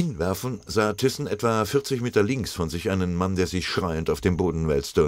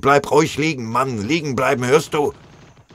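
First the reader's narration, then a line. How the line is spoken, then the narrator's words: Terrible roar. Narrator (German): brüllte einer, furchtbar anzuhören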